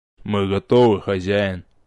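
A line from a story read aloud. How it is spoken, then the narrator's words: Deep rumbling voice. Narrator (Russian): Рокочущим голосом произнес широкоплечий кузнец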